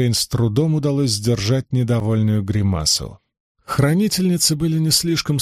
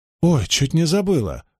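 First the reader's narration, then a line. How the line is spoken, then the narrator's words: Exclamation. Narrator (Russian): воскликнула Эгвейн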